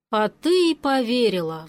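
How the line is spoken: Sigh. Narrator (Russian): вздохнул Григор

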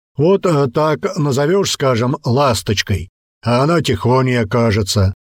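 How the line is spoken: Deep bass voice, bull. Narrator (Russian): пробасил бык

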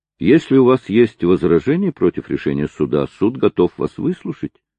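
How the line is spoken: Gentle. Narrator (Russian): сказал Мармадюк Темпл мягко

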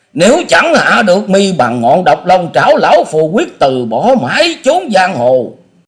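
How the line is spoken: Hissing scream. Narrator (Vietnamese): thét lên trong giọng rít

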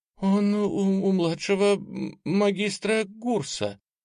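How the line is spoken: Timid babbling young woman. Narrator (Russian): пролепетала юная водница второго ранга

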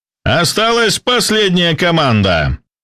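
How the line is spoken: Shouted announcement. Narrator (Russian): прокричал ведущий

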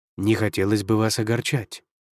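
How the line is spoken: Plain. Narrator (Russian): сказал Юнгуань

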